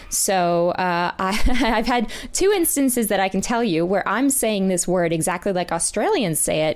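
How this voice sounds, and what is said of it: Non-rhotic accent, dropped R sounds. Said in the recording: “in my accent, there's no R there”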